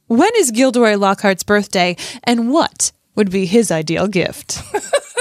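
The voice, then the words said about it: Smiling sing-song TV news voice. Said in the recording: “your Gilderoy Lockhart voice ... It's like you're in TV news voice. ... You just have to smile a lot and sing song it a little bit and just think you're the greatest gift to the world.”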